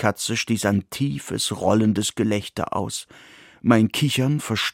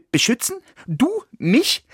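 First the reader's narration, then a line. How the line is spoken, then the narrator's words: Panicked giggle. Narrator (German): Ich kicherte panisch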